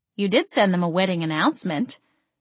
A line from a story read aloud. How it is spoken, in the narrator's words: she snorted